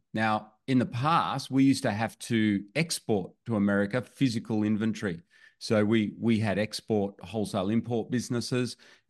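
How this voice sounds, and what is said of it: Australian accent. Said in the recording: “we live in Australia, as you can maybe tell from my accent.”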